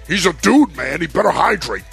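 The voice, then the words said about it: Impression of coach Adazio. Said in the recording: “That's my Adazio impression.”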